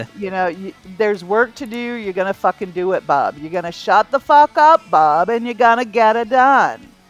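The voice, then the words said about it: Put-on New England accent imitation. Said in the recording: “worst Joe queer imitation I've heard from anybody... it's a New England accent... you just don't sound like Joe... you sound like every other asshole in Maine”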